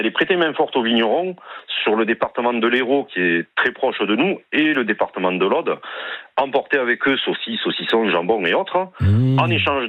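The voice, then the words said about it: Light southwestern French accent. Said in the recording (French): “vous avez un léger accent ... c'est l'accent du sud-ouest”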